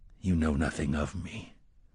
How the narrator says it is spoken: the gunslinger said quietly

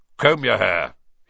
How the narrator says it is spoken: he barked

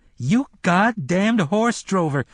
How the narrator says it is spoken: Cuthbert suddenly yelled, grinning

